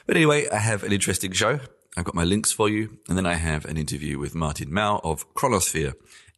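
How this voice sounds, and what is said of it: Congested voice from a cold. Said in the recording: “as you can probably already hear, I have a bit of a cold, or I'm getting over a cold ... that sound in my voice”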